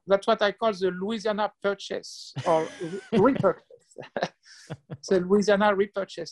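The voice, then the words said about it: French accent. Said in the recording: “I'm detecting a French accent.”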